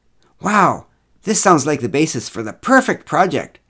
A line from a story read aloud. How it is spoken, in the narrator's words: exclaimed Ruth